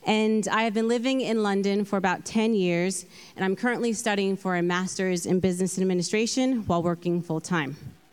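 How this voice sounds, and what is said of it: Californian American accent. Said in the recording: “I'm from California, hence the accent.”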